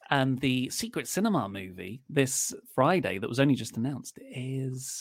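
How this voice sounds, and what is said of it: Usual voice. Nothing is said of it.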